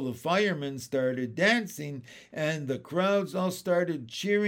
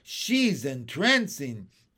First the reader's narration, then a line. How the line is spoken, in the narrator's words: The cops cried